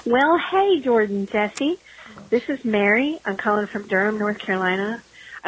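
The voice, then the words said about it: Sweet Southern American accent. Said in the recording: “If you call in with an accent like that ... if you got a voice that sweet ... a southern accent”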